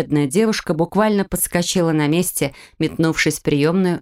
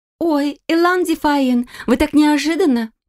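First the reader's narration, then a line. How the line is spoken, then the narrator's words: Flustered babble behind door. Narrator (Russian): пролепетала за дверью секретарь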